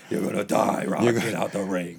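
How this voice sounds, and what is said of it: Gruff old boxing trainer voice. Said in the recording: “why did you start talking like that? ... You sound like Rocky's old trainer or some shit.”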